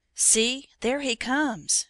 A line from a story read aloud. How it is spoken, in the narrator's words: cried in sudden terror